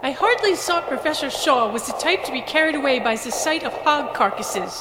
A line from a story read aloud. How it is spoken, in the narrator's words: LeFranc exclaimed in her terrible accent